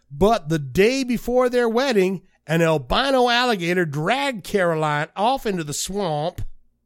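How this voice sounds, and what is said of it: Put-on Southern accent. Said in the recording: “You got a southern accent all of a sudden?”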